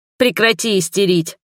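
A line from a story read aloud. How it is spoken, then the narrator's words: Barking, off-balance, desperate. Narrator (Russian): рявкнула, балансируя находящей ходуном поверхности и отчаянно стараясь не упасть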